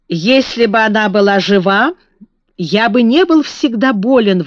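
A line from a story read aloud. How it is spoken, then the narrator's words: Grumbling. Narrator (Russian): ворчал он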